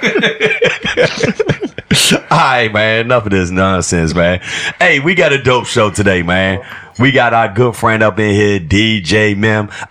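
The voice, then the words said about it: Slightly raspy voice. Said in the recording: “Excuse my voice. It's a little bit raspy”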